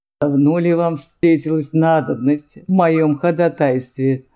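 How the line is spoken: Unkind laughter. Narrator (Russian): рассмеялся герцог недобрым смехом

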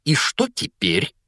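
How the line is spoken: Spiteful, hateful question. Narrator (Russian): злобно спросила тетя Петунья, с ненавистью

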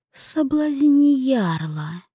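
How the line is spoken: Whisper from the dark. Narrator (Russian): прозвучал из темноты все тот же шепот

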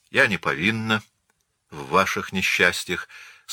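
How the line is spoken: Calmly cutting in. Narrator (Russian): спокойно оборвала его Марианна

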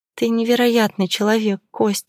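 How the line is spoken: Muffled whisper. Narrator (Russian): прошептала я, уткнувшись ему в плечо

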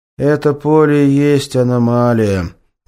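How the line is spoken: Sigh. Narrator (Russian): вздохнул поисковик

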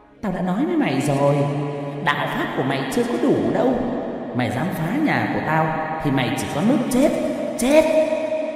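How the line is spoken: Eerie shrill woman's voice. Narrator (Vietnamese): thầy Tư cười the thé, giọng đàn bà vang lên nói một cách ghê rợn

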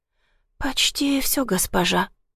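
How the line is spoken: Slurred whisper. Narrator (Russian): прошептала заплетавшимся языком

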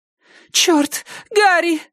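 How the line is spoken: Wailing wife. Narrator (Russian): взвыла жена

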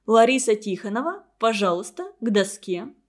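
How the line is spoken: Serious, stern. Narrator (Russian): серьезно и строго сказала

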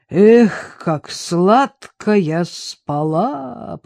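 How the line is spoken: Low booming drone. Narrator (Russian): прогудел Григорий

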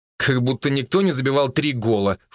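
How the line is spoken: Snorting. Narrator (Russian): фыркнул

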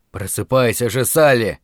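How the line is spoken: Louder mumbling. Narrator (Russian): Бормотание громче

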